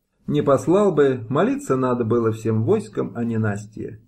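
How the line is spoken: Plain. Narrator (Russian): сказал Кривонос

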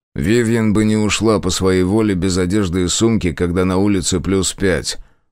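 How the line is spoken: Flat colorless tone. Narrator (Russian): бесцветным тоном заметил я

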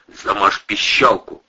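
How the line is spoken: Hissing. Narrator (Russian): зашипел Протасов

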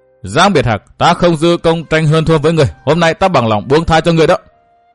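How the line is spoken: Loud shout. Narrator (Vietnamese): Người áo đen cao giọng quát

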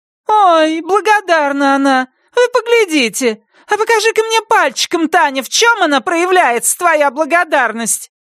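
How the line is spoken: Shrill voice. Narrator (Russian): ее визгливый голос

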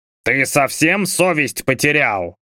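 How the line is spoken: Big man roaring. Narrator (Russian): взревел здоровяк

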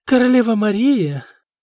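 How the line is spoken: Feigned polite exclamation. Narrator (Russian): воскликнула Нантильда, натянув на лицо маску любезности

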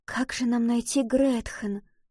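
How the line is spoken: Whisper. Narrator (Russian): прошептала Валентина

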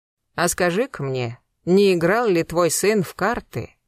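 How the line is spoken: Cold question. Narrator (Russian): холодно спросила Рогозина

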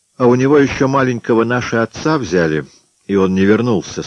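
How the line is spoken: Plain. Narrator (Russian): сказал Грек

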